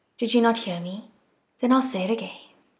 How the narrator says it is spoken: said calmly

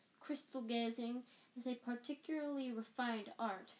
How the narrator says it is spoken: she said dreamily

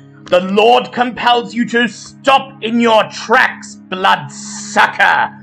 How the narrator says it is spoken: He barks

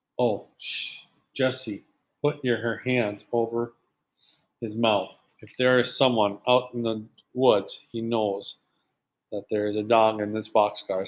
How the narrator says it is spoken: said Henry

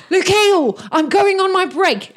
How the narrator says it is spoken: he shouts up

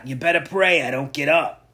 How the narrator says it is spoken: Harley growled

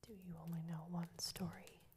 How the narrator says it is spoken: asked the rats

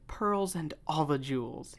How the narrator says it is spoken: cried

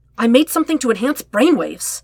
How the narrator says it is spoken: he exclaimed

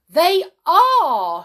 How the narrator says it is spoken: shouted the people, who seemed to be thoroughly enjoying themselves

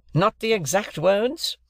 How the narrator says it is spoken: repeated the gentleman bitterly

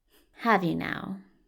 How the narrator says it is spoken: Aziraphale muttered

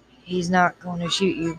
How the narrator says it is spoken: Boone growled

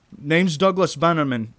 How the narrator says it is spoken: I shout through the wood

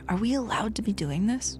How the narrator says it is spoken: Jamie Lee would get nervous and whisper

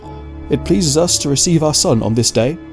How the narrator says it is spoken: said

